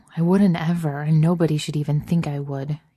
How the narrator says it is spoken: he mumbles

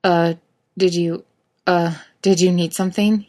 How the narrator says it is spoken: He stutters out, feeling all of 14

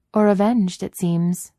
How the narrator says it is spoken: Miss Fisher adds dryly

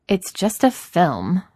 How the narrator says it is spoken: Philly says irritably

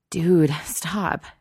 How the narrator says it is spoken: she wheezes

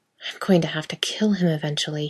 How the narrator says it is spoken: muttered to himself

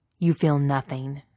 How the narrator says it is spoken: Vader snaps

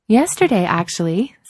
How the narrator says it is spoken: said Adrian brightly

